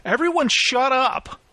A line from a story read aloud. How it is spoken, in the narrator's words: Henry shouted